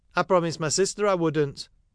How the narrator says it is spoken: hastily confirmed

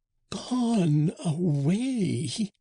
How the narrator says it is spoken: said the old man in a strangled voice

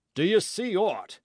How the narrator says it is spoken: cried Hatch

